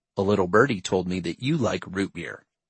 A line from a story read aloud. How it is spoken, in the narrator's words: he said